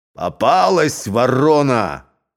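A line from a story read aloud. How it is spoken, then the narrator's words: Crowd shouting. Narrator (Russian): кричали ляхи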